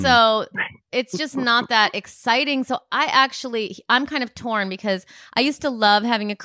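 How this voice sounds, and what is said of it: Usual voice. Nothing is said of it.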